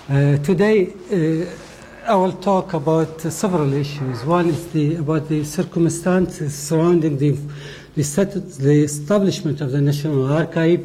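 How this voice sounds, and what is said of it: Non-native English accent. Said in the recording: “I hope that you can understand my accent. My English is very poor.”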